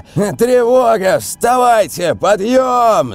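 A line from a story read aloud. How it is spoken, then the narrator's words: Yelled. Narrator (Russian): завопил он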